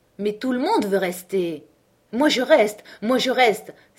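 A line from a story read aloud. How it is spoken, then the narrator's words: Ladies exclaiming together. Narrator (French): s'écrièrent des dames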